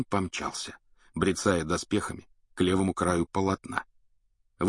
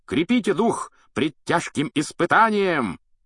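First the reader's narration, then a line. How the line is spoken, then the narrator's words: High-pitched shout. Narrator (Russian): крикнул на высокой ноте рыцарь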